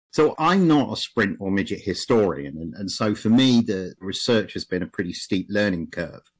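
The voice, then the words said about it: English accent. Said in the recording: “I'm English, if my accent was hard to place.”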